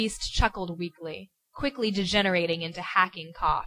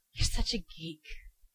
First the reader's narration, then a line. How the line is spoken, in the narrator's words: he murmured